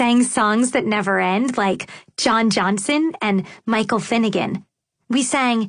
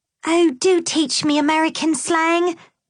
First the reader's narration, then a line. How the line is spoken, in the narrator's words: Victoria pleaded